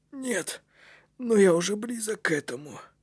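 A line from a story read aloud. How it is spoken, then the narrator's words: Whisper. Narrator (Russian): прошептал кнут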